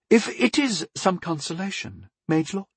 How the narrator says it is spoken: Lady Athalia said sweetly

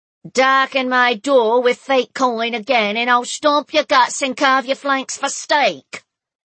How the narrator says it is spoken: an angry female voice bellowed from inside

